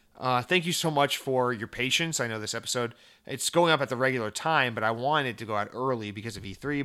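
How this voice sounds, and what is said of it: Hoarse, worn-out voice. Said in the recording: “I'm losing my voice, if you can't tell.”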